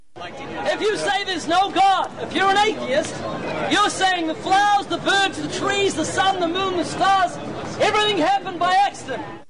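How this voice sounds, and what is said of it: New Zealand accent, animated delivery. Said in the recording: “Do I detect an Australian accent there? ... I believe that's a Kiwi accent. ... It is Kiwi. ... Boy, he's animated.”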